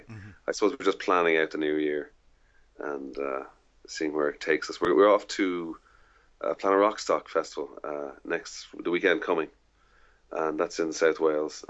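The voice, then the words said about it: Irish accent. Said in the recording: “people might have guessed from your accent, of course, you are Irish”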